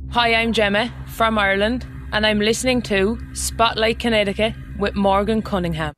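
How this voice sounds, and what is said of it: Irish accent. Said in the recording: “Don't you love that Irish accent?”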